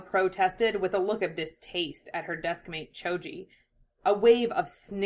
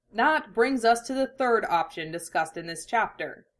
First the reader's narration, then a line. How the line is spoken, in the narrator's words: he said, commanding himself sternly not to blush